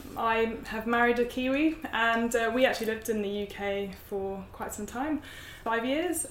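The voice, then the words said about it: British accent. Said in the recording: “you can tell from my accent, I'm from the UK”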